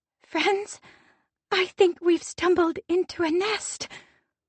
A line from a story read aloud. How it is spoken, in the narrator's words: Meriden whispers